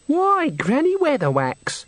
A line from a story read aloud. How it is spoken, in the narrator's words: said the girl happily